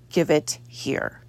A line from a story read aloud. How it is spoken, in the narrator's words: John says through gritted teeth